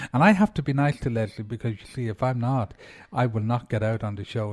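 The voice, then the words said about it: Irish accent. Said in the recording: “she finds it very hard to understand me because I'm Irish”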